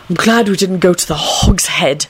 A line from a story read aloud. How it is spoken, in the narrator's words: Neville hissed